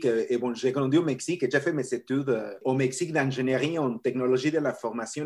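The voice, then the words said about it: Latino accent speaking French. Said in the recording (French): “j'ai un accent assez spécial ... j'ai mon accent latino”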